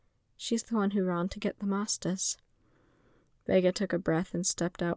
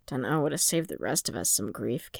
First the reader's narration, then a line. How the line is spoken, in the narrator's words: Kay muttered